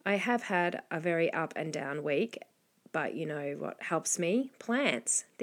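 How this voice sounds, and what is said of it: Scratchy voice with a cold. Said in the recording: “you might hear in my voice that I've got a little bit of a cold... I've had this scratchy voice for a little bit now”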